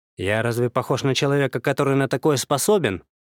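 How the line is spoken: Offended, through clenched teeth. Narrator (Russian): Оскорбленно процедил я

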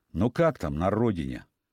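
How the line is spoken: Man asking sadly. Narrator (Russian): мужчина грустно спросил

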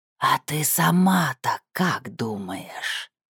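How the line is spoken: Hissing. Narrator (Russian): Прошипела она

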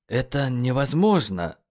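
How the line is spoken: Hoarse, strained. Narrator (Russian): хрипло выдавил Нейт

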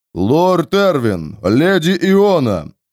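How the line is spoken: Booming voice. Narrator (Russian): прогудел голос кого-то из отцовских вассалов

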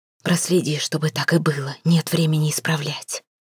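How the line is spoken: Barely audible whisper. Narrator (Russian): прошептала едва слышно

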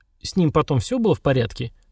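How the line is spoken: Deliberately calm question. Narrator (Russian): нарочито спокойно спросил Сергар

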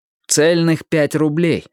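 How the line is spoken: Plain. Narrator (Russian): ответил

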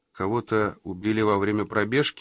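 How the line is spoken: Tired clarifying. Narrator (Russian): устало уточнил

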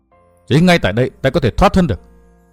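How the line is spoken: Muttering. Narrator (Vietnamese): Hắn lẩm bẩm nói

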